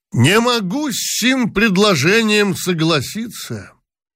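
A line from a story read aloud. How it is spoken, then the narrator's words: Sudden, loud and pompous. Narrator (Russian): вдруг громко и важно сказал генерал Талызин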